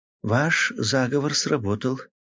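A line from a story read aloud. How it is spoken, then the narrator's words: Barely audible. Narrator (Russian): еле слышно сказала мисс Беллингем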